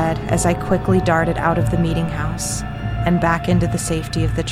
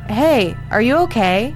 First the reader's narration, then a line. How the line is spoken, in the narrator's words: he shouted from inside the meeting house